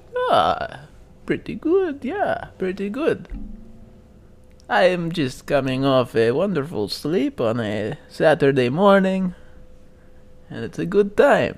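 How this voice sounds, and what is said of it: Put-on unfamiliar accent. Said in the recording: “has developed a new accent overnight ... you're not doing the whole podcast in this voice”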